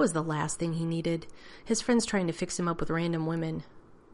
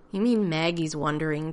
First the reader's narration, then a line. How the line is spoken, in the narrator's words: John sighed